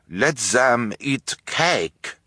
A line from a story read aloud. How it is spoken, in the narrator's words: in a voice with a strange accent